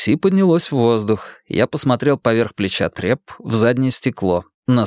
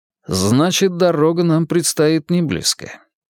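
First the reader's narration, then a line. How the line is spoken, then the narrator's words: Calm. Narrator (Russian): спокойно произнес я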